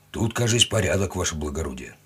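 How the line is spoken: Gruff mutter. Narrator (Russian): буркнул унтер

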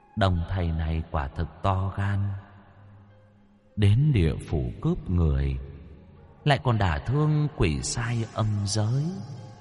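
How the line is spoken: Soft. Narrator (Vietnamese): khẽ nói

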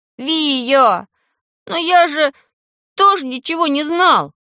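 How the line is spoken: Desperate howl, younger one. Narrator (Russian): Уже с отчаянием взвыл меньшой

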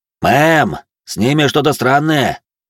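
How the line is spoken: Shouting through speaker. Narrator (Russian): крикнул динамит Вероники

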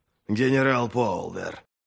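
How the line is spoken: Hissed. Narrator (Russian): прошипел Крой

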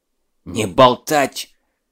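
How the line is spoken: Hissing sergeant. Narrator (Russian): зашипел старшина Данильский

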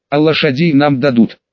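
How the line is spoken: Plain. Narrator (Russian): спросил Берт

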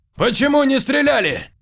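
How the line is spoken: Shouting while running. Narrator (Russian): Заорал он на бегу

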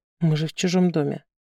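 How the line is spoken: Strained whisper. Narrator (Russian): прошептала на грани пытки

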